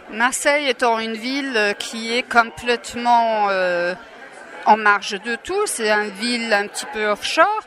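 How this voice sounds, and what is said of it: Charming non-local accent in French. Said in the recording (French): “Votre charmant accent nous montre bien que vous n'êtes pas native de Marseille”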